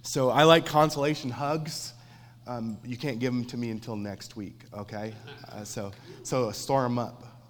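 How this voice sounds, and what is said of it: Sick-sounding voice. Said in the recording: “you can probably hear in my voice ... that I'm a little sick”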